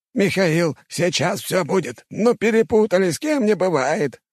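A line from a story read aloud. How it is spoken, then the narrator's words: Exclaiming. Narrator (Russian): воскликнул один из них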